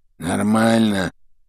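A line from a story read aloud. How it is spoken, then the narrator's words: Muffled grumbling from right. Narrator (Russian): Справа послышалось глуховатое ворчание Крэбба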